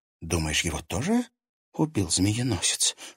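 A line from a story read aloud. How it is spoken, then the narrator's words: Whispered question. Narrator (Russian): шепотом спросила Женя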